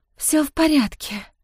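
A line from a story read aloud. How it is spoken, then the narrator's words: Barely audible breath. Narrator (Russian): едва слышно выдохнула она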